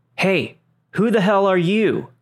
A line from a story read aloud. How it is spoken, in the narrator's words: I hear her father yell out